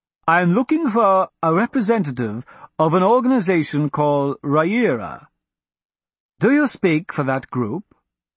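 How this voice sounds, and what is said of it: Slightly saucy Calais accent. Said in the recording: “the slightly saucy accent of a Calais native”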